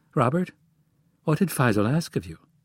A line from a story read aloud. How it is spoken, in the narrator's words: In a soft voice, Jones asked